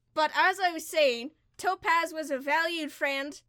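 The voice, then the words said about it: Poorly done character accent. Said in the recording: “My accent is atrocious ... I can't do this voice”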